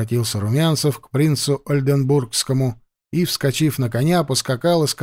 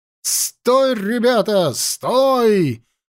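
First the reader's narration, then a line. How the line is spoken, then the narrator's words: Shouting. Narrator (Russian): кричал он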